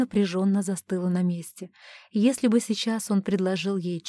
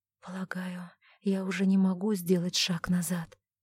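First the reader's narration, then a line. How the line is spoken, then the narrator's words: Quiet. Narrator (Russian): тихо сказала она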